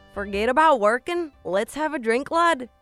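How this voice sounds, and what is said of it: Attempted Irish accent, sounds Southern American. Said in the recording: “Irish accent ... That sounded like you're from Alabama”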